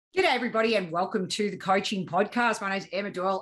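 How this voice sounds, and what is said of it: Australian accent. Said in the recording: “my Australian little lingo ... I like the Australian accent. It sounds good.”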